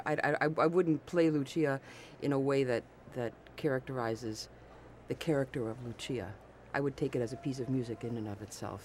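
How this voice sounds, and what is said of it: Pleasant, polished radio voice. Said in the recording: “You have a great radio voice, ... It's really lovely.”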